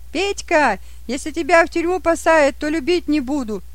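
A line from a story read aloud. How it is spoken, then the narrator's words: Shout. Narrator (Russian): одна из них и крикнула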